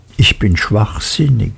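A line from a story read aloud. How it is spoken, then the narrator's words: Hushed whisper. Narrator (German): er dämpfte seine Stimme bis zum Flüstern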